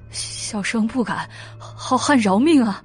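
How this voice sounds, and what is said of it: Quiet, frightened pleading voice. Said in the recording (Chinese): “双腿哆嗦， 小声的道”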